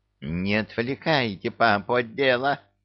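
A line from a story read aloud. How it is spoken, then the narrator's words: Angry witch hissing. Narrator (Russian): Сердито зашипела яга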